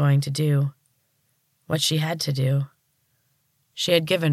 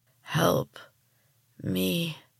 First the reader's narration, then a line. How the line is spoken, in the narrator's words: groaned